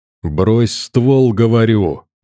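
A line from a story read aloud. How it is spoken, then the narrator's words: Growl. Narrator (Russian): зарычал я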